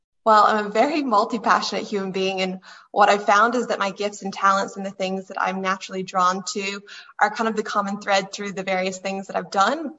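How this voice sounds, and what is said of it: American accent. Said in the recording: “You can probably hear from my voice that I am American”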